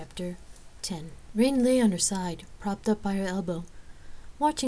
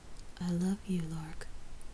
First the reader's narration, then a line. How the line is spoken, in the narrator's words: whispered